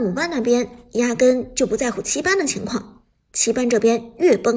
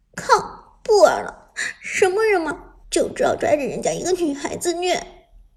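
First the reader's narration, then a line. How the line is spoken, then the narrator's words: Angry tearful resentment. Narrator (Chinese): 艾美直接被气哭了，恨恨道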